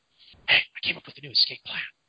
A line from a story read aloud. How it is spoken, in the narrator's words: whispers